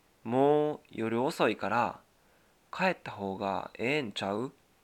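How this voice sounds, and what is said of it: Kansai dialect Japanese. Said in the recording (Japanese): “関西弁で言うと”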